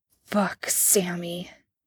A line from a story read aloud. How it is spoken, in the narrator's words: Dean grunted